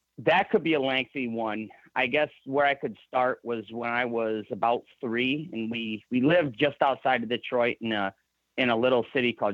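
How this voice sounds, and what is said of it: Michigan accent, Canadian-Midwest mix. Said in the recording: “you can tell with your accent ... the Michigan accent's a little bit different, so you can tell that you're from Michigan ... a unique mix of of Canadian and Midwest”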